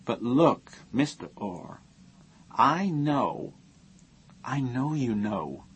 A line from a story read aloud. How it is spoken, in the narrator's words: he said gently